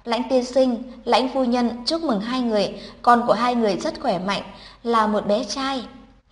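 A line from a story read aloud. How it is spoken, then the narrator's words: Gentle smiling. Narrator (Vietnamese): Cô y tá cười dịu dàng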